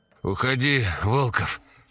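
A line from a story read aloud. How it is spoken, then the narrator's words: Hoarse rasp. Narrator (Russian): прохрипел Громов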